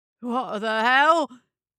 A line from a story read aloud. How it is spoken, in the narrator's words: stammered, eyes screwed shut in pain